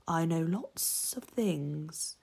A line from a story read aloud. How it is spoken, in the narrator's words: said softly